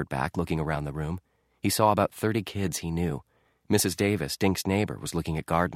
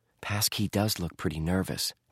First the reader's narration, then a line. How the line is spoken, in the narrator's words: Josh whispered